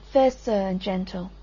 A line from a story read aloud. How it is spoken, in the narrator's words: she said